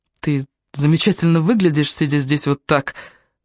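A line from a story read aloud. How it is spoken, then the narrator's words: Low voice. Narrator (Russian): он сказал низким голосом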